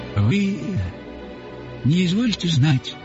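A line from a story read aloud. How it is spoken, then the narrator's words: Weak, trembling voice. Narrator (Russian): начал он расслабленным и дрожащим голосом, таково действие беспримесного березовского табаку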